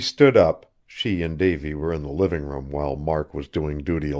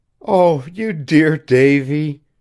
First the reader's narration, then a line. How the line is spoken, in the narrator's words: Janet was laughing above her inclination to cry